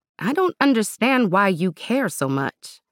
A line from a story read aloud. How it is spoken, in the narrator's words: Emira tried to keep her voice even as she said